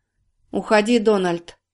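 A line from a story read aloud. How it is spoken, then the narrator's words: Grim. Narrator (Russian): мрачно сказала Карина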